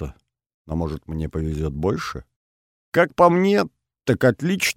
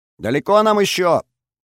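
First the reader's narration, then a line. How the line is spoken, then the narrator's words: Shouting over wind. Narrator (Russian): прокричала мне в самое ухо Олеся, стараясь превзойти ветер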